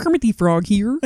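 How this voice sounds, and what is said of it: Kermit the Frog voice. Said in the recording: “your best Kermit impression ... Wow, that's good. Really good. It's not bad.”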